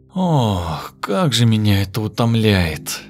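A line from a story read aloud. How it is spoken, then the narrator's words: Weary. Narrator (Russian): Устало прикрыла глаза Ираида Павловна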